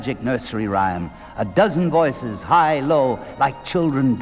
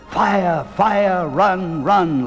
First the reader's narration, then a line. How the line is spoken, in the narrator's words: the voices wailed